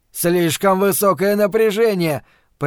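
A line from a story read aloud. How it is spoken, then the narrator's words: Roaring. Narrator (Russian): проревел Брэд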